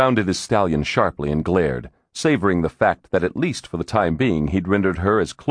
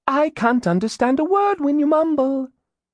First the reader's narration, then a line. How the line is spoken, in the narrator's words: Elizabeth said sweetly